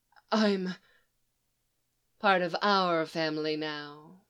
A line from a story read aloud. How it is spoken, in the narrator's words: Lisa purred